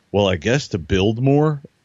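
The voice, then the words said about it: Imitates another person's voice. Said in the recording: “my best Jeff impersonation.”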